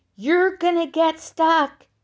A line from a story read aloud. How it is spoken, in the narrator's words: he yelled